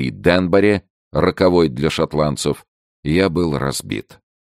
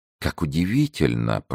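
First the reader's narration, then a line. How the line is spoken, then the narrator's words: Whisper. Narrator (Russian): прошептал Людовик XIV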